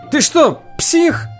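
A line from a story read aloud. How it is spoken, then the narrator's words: Yelling. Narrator (Russian): завопил он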